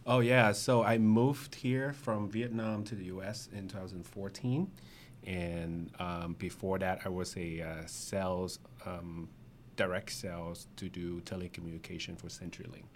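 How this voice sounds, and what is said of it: Very thick non-native English accent. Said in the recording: “I have a very thick accent ... it's just a very thick accent”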